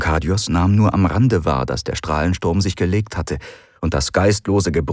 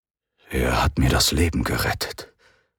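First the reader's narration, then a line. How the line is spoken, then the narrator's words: Low murmur. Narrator (German): raunte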